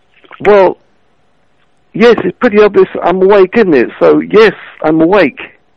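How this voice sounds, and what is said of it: British accent. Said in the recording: “I don't understand your accent. ... Are you British?”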